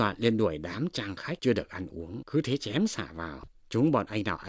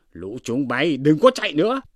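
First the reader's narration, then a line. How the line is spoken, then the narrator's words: Men shouting together. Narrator (Vietnamese): chú Phú chú Quý đều giơ dao quát lên rằng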